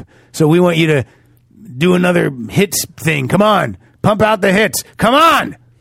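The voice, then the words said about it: Record executive character voice. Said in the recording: “my record executive impression.”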